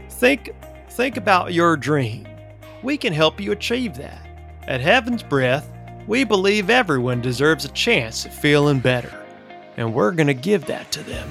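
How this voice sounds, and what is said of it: Character voice with southern accent. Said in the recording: “he speaks in a southern accent”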